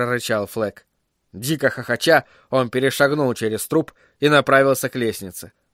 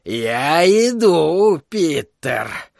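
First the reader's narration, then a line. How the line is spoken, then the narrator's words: Joyful shout. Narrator (Russian): радостно крикнул он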